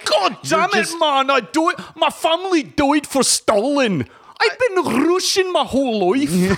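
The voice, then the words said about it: Put-on Russian accent. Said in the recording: “It's like version of like a Russian.”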